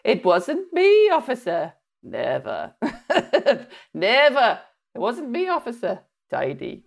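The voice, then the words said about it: Put-on Welsh accent. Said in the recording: “in a Welsh accent”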